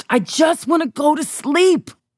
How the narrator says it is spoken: I screeched

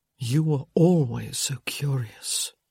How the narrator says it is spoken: he murmured

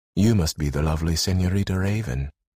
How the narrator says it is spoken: He coolly said

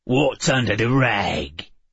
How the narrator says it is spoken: He growled, his accent nearly impenetrable

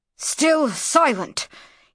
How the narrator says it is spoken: hissed Nahare furiously

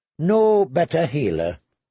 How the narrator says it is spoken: he agreed wearily

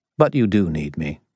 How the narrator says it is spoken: Listen said calmly

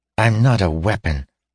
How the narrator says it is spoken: said Asha angrily

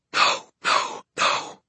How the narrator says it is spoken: under her breath

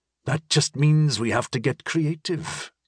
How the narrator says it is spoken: Sandy said with a sigh

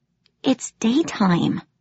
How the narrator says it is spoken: I whispered

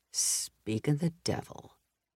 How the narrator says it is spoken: he muttered

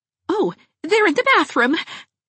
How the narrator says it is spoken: exclaimed Mrs

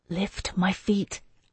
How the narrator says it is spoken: I whispered down to him

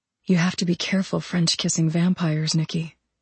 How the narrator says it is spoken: My voice sounded breathy as I said

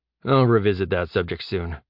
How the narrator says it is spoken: Jeb muttered

